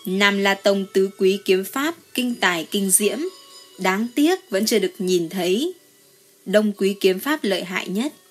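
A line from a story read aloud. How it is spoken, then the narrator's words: Smiling. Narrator (Vietnamese): Diệp Trần mỉm cười nói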